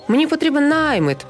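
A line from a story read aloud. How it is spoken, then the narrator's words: Merchant shouting loudly. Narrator (Ukrainian): голосно кричав купець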